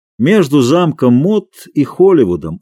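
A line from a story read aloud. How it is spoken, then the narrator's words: Calm voice. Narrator (Russian): ответил сэр Дэниел спокойным голосом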